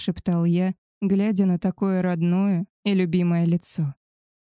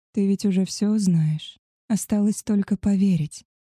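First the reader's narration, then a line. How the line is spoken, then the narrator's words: Whisper. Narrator (Russian): шепнул я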